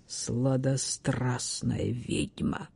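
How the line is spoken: Whisper. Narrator (Russian): прошептал он

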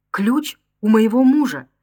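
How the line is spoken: Frightened trembling babble. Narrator (Russian): дрожа от страха, пролепетала Роза

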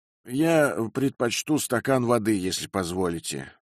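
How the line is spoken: Gloomy remark. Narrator (Russian): мрачно заметил мистер Фиппин

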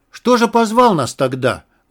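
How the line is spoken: Rude question. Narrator (Russian): грубо спросил вместо Федьки Васька Валуев

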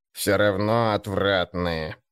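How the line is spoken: Creaky voice. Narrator (Russian): проскрипел Гнуб

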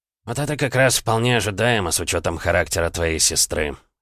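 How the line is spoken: Emperor's wry snort. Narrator (Russian): хмыкнул император

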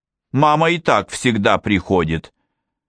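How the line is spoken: Plain. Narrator (Russian): сказал Лео

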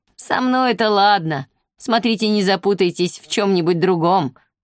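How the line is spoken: Laughing again. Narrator (Russian): вновь рассмеялся гость

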